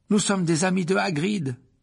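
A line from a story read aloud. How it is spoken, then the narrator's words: Exclaimed. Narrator (French): s'écria Harry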